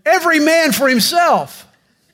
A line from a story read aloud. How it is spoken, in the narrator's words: Congregationalist theologians shouted